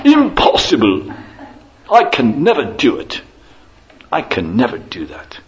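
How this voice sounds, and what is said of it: Put-on British accent. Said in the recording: “In his best British accent.”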